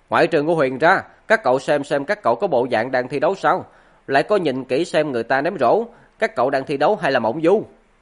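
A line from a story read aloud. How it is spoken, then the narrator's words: Loud shout. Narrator (Vietnamese): Quờ tài lớn tiếng hô lên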